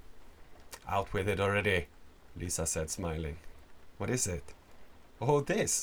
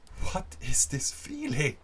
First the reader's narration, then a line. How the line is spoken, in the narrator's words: She screamed